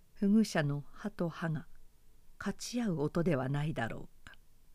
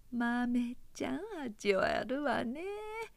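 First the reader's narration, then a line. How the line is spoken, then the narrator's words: Woman's voice. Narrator (Japanese): それは言うまでもなくお花の声であった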